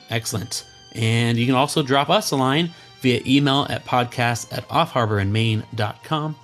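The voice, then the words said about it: Hoarse voice. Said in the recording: “thanks for putting up with my hoarse voice today”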